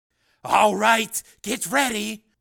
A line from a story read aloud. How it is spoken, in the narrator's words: Snake shouted